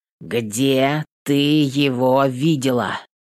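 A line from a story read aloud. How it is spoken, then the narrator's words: Emphatic, through gritted teeth. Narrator (Russian): Чеканю с нажимом сквозь зубы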